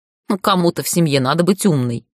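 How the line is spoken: Snorting. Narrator (Russian): фыркнула Тани

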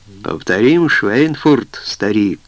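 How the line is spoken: Smirking. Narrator (Russian): усмехнулся Говард

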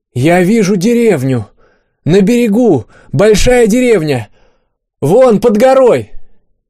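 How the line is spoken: Shouted. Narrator (Russian): Аня прокричала

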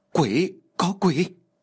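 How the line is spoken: Terrified group screaming. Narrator (Vietnamese): Tất cả mọi người đều kinh sợ và hét lên

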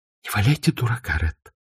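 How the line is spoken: Whispered reply. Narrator (Russian): шепотом ответила Скарлетт

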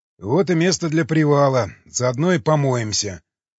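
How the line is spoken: Snorting ogre. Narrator (Russian): хмыкнул людоед

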